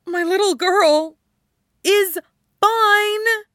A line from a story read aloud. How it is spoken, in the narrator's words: Erica blurts out